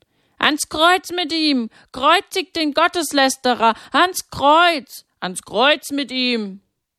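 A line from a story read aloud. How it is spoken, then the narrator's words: Crowd chanting shouts. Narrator (German): Die Feinde Jesu hörten nicht auf, das zu schreien, und immer mehr ließen sich von ihnen anstecken und schrien mit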